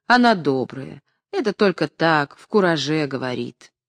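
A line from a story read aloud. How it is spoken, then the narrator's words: Gentle remark. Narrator (Russian): Слепой ласково заметил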